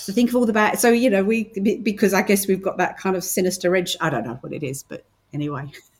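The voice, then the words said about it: British accent. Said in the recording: “as you can hear, I'm very, very British. Or as some people say, I'm Australian ... it does sound very British”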